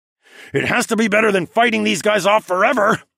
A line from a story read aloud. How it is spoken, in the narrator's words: I growled